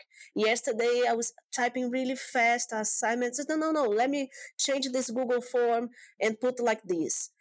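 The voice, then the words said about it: Brazilian Portuguese accent. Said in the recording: “I'm from Brazil, I do speak Portuguese... my accent”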